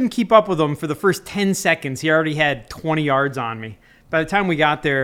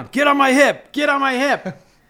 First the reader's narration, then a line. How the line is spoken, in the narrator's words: starts running, and he's yelling